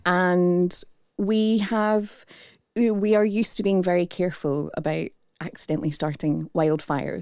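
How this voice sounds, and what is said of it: Strong Australian accent. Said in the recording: “you can tell from my strong Australian accent.”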